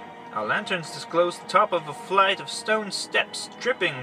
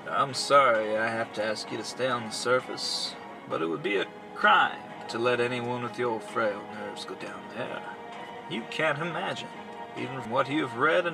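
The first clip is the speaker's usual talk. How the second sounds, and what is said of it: Mellow, calm tenor voice. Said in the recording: “in his mellow tenor voice. A voice so sick, singularly unperturbed”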